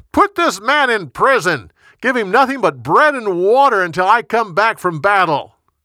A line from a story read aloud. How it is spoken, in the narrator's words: Ahab yelled at his guards